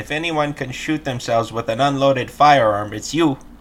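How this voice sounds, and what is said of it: Put-on accent, done well. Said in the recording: “Is that a good accent? ... Perfect.”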